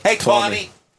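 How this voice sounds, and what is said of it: Put-on Boston accent. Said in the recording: “How would you say Sammy in a Boston accent?”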